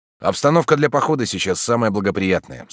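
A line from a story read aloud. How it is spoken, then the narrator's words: Plain. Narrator (Russian): сказал я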